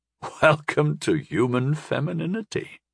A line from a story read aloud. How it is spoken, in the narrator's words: I laughed